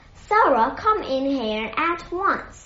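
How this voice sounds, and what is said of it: Loud calling voice. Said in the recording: “he called in a loud voice”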